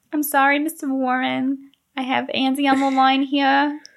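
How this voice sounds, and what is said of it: Thick New York accent. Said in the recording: “Candy has a thick New York accent ... That was good.”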